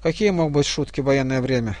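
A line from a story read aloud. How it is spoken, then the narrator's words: Young lad's reasoning sigh. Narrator (Russian): рассудительно вздохнул паренек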